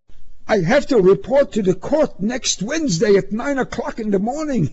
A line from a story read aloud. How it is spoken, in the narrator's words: he cried